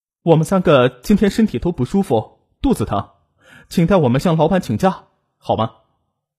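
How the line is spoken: Clear and calm. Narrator (Chinese): 王雪莲的声音清晰而又平静

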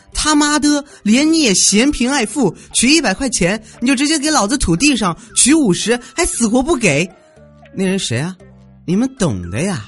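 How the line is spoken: Loud angry cursing. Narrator (Chinese): 有个人对着 ATM 机大声叫骂

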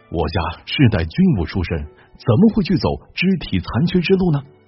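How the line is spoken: Plain. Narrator (Chinese): 石彪说

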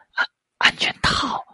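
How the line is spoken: Muffled whisper. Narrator (Chinese): 男孩用手捂着嘴巴，轻声说

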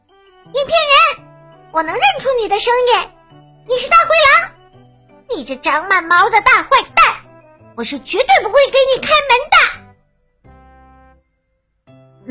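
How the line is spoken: Loud, defiant. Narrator (Chinese): 我挺着胸，大声说道

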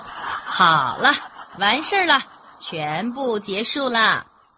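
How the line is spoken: Loud announcement. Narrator (Chinese): 医生大声的宣布说

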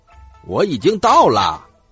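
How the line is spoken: Loud shout. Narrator (Chinese): 大声喊

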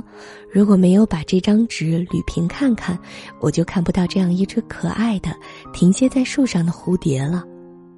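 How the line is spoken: Wistful exclamation. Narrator (Chinese): 王月薇感叹说

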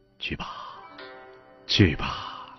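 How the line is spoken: Murmuring. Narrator (Chinese): 喃喃的说

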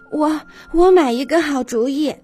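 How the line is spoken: Breathless mother. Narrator (Chinese): 虎妈妈气喘吁吁地跑来

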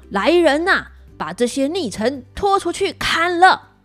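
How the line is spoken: Furious shouting. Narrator (Chinese): 纣王大怒，大叫

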